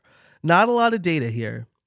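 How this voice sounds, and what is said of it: Slight New York accent. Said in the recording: “My New York accent came out a little bit there.”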